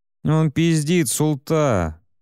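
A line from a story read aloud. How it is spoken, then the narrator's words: Nasal whine. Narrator (Russian): прогнусавил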